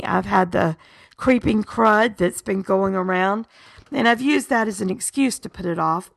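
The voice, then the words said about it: Sick, rough-sounding voice. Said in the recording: “my voice is kind of icky”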